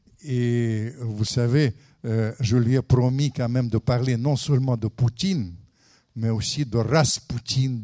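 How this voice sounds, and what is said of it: Speaks French with a foreign accent. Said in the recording (French): “je continue ma litanie avec mon accent”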